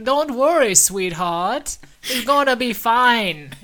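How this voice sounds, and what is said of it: Put-on Dutch Jamaican hybrid accent. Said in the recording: “it's like a Dutch Jamaican hybrid accent. That dialect work is amazing.”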